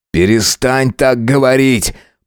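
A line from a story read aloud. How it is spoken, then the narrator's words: Fearful shout. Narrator (Russian): прокричал, чувствуя, как внутри все сжимается от страха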